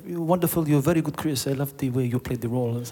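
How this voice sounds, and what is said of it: Bad put-on French accent. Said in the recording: “He was French, by the way. Yeah, it's my terrible French impression.”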